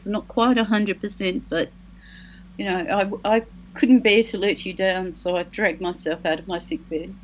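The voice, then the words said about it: Unwell, sick-sounding voice. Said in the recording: “as you can probably hear from my voice”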